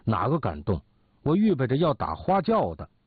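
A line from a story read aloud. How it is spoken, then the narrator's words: Angry woman. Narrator (Chinese): 严夫人怒说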